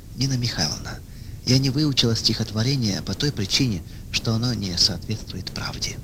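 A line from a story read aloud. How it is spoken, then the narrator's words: Calm. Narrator (Russian): она спокойно ответила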